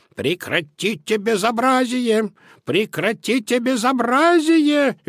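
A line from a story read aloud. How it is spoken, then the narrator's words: Shrill squealing. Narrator (Russian): визжали они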